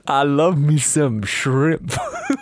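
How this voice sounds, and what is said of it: Put-on Louisiana Bayou accent. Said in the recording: “Pitch perfect Bayou Louisiana accent.”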